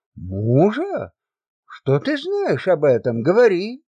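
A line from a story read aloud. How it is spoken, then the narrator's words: Threatening exclamation. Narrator (Russian): воскликнула, угрожающе сверкая глазами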